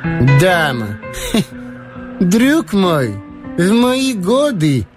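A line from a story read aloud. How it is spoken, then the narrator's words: Laugh with feigned bitterness. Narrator (Russian): Он рассмеялся, сделанной горечью и разочарованием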